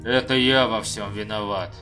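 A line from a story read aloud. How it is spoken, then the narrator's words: Grumbled. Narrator (Russian): проворчал Абер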